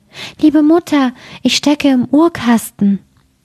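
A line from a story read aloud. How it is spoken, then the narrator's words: Thin small voice. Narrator (German): rief eine feine Stimme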